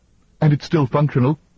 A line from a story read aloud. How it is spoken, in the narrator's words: Roman said eagerly